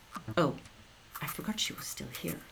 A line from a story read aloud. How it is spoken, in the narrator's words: Hannah whispered